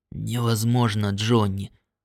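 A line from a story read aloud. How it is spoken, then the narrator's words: Whisper. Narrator (Russian): ответил шепотом Уайти Джонс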